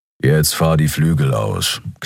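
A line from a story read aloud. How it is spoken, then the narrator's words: Growl. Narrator (German): knurrte Keru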